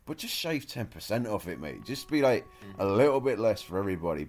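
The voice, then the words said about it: British accent. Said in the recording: “as a British man, you can tell from the accent”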